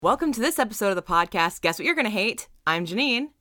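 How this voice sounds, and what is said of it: Voice rough from a cold. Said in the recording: “I have a cold, so my voice sounds like, it sounds awful.”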